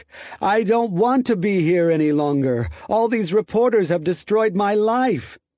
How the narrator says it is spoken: Lopez wailed in English

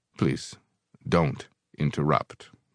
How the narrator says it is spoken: Brother Jack said icily

